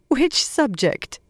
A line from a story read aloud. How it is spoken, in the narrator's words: Moiraine asked, half laughing